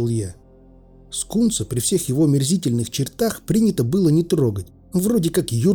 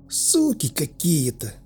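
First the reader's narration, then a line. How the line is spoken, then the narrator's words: Sighing. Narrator (Russian): вздохнув, сказал Скунс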